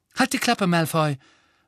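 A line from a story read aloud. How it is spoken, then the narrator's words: Sharp. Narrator (German): sagte scharf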